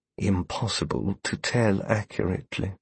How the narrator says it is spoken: Stanton answered quietly

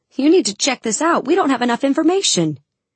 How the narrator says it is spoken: Other times it shouts

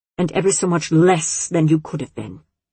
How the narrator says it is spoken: Sister Ignatia snapped

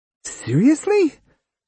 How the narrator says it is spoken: Koyomi squeaked with disbelief

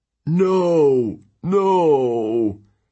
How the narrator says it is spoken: Tyson whimpered

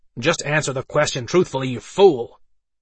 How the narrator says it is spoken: Dante snapped

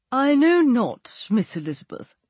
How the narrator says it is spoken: said he

